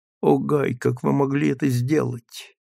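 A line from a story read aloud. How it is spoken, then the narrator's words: Whisper without moving lips. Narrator (Russian): Магнолия шепнула, не шевеля губами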